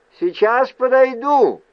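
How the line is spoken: Shouted after them. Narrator (Russian): крикнул им вслед Рэндом

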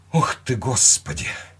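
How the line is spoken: Breathed out. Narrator (Russian): выдохнула она

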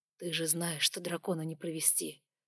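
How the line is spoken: Fervent whisper. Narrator (Russian): горячо прошептал он

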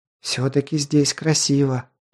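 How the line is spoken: Enchanted whisper. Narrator (Russian): прошептала завороженная Ди

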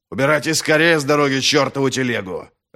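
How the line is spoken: Harsh bark. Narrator (Russian): рявкнул на них практик

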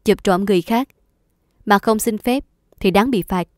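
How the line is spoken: Very serious tone. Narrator (Vietnamese): Chú ta nói với giọng rất nghiêm trọng

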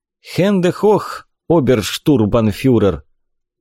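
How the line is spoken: Tired. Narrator (Russian): устало сказал Горин

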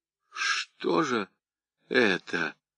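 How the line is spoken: Strained confused words. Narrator (Russian): выдавил из себя в замешательстве

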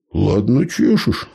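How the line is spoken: Amused snort. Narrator (Russian): хмыкнул Михайло

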